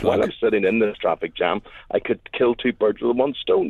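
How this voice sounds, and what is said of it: Slightly husky, strained voice. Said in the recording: “my voice is a wee bit stretched ... I'm a wee bit husky today”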